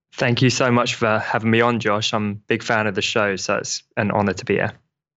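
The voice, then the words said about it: British accent like Russell Brand. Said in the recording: “has an awesome accent ... I'm trying to work the Russell Brand angle for you”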